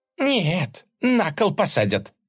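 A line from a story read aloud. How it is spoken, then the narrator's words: Grumbling. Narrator (Russian): проворчала Глафира Ивановна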